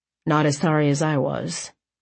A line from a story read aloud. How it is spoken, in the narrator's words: he muttered